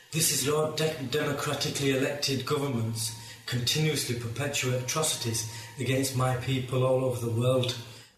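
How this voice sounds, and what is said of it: Thick Yorkshire accent. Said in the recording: “in a thick Yorkshire accent”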